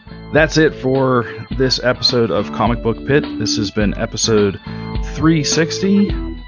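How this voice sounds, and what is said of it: Hoarse, failing voice. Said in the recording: “I am losing my voice.”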